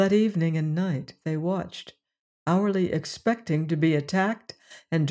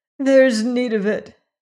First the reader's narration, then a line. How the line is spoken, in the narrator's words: she sobbed